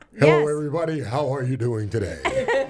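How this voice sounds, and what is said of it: Radio announcer voice. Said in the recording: “did I do my radio voice?”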